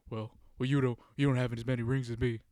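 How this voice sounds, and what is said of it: Bad Shaq impression. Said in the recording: “That's a really bad Shaq impression”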